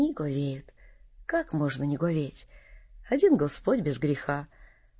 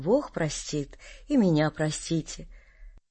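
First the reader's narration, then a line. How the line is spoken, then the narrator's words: Gentle, many voices. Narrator (Russian): Все ласково говорят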